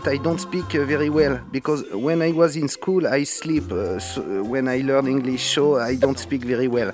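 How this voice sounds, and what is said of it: French accent. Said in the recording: “the accent, French accent.”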